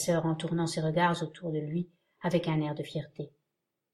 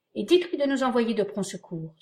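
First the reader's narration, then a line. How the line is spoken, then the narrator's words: Enthusiastic exclamation. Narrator (French): s'écria Cora avec un généreux enthousiasme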